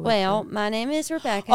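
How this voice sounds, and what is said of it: Put-on West Virginia Southern accent. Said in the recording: “my West Virginia accent, which I can still very much call back at any moment in time ... that kind of accent ... All the way from the deep south. But it's the Virginia South, so talk a little bit like you got a little bit of marbles in your mouth”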